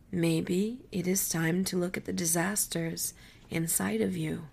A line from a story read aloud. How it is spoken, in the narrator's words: Coyote said gently